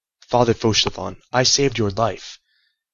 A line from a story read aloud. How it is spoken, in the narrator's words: said to him in a grave voice